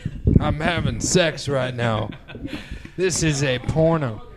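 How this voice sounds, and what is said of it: Exaggerated porn-actor voice. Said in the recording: “best porn impression”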